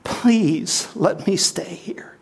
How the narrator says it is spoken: she whispered a prayer

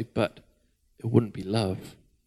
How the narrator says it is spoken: the Creator interrupted softly

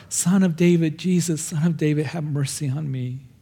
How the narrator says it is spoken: he just cries out more

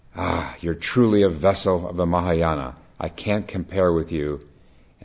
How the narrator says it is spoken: The monk cried out

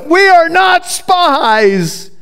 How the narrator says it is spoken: they're pleading with Joseph

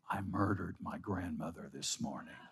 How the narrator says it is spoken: he murmured

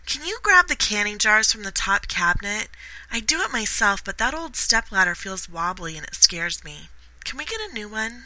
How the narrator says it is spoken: she sweetly asked

